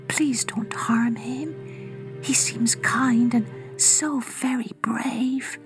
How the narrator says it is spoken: she whispered

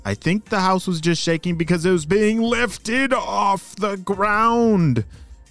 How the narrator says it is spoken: she shouted

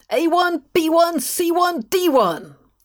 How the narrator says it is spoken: yelled from the window

